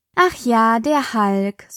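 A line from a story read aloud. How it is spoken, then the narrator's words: Sighing. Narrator (German): seufzte Espen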